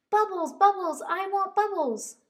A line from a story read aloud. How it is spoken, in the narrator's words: cried Dozy